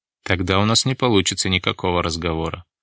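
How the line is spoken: Sighing. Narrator (Russian): вздохнул Дронго

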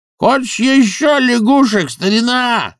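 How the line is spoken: Yelling. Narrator (Russian): заорал он

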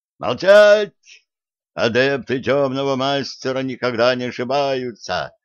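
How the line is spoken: Barking. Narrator (Russian): рявкнул один из них

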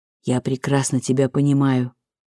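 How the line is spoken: Muttered. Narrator (Russian): пробормотал он

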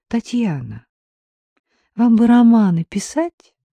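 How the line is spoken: Weak tired whisper. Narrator (Russian): устало прошептала Дина, чувствуя, как тают ее силы

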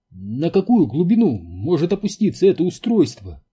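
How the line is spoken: Excited anxious question. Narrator (Russian): взволнованно поинтересовался Энди

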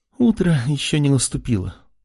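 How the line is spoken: Muttering. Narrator (Russian): пробормотала она

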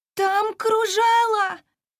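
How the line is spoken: Shouted through cupped hands. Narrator (Russian): сказала Бриза, сложила ладони рупором, чтобы было лучше слышно, и крикнула

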